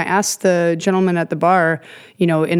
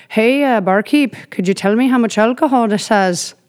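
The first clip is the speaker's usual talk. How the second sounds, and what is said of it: Fake Northern Irish accent. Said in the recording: “in my, like, fake accent, because I just developed one, apparently, after, like, 2 days there”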